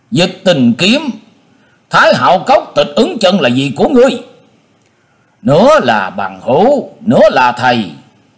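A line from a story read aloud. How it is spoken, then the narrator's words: Stern shout. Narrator (Vietnamese): Trương Thiên Ý nghiêm giọng quát lên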